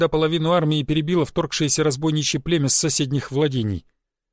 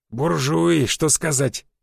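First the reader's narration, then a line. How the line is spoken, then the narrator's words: Hoarse rasp. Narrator (Russian): захрипел Жига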